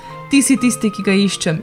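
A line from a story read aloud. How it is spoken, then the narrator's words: Sharp cry. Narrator (Slovenian): je kriknil kralj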